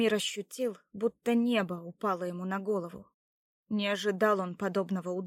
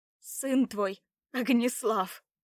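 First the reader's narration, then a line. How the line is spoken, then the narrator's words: Through gritted teeth. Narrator (Russian): Процедила Лада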